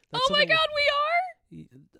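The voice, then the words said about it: Shouting excitedly. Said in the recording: “Why are you shouting?”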